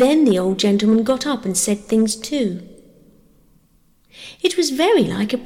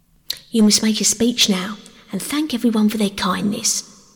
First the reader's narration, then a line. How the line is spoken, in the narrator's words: whispered the station master in Peter's ear